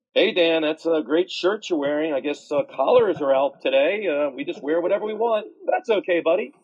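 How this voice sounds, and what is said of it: Sarcastic mocking tone. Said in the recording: “being sarcastic ... very funny, sarcastic”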